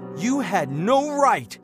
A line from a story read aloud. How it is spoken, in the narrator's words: he shouted, his face turning red